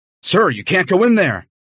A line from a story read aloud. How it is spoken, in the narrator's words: the firefighter shouted